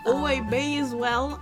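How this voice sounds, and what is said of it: Odd put-on accent. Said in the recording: “What was that voice that you just did there? ... Your accent's kind of tripping me up ... It was a little bit disconcerting”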